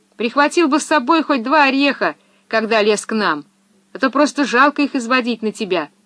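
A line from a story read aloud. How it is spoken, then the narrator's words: Shout. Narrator (Russian): крикнула ему Пеппи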